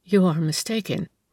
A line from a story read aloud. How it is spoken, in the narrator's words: replied the woman in a low tone